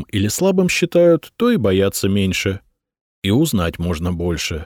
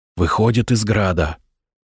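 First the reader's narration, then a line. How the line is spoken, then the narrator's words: Whisper. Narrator (Russian): шепнул взводный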